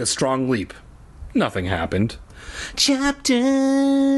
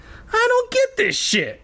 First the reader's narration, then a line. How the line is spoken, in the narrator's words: I wailed